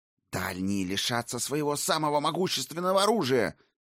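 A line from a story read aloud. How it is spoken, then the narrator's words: Furious hiss. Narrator (Russian): яростно прошипела Сигарлин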